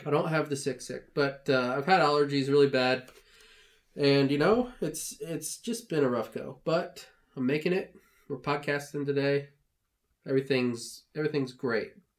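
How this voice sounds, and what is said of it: Nasal, congested voice. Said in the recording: “You sound a little nasally.”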